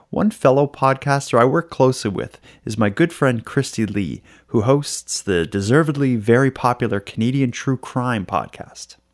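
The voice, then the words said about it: Female voice, Australian accent. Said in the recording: “the voice you'll hear is a female with an Australian accent instead of a Nova Scotian male”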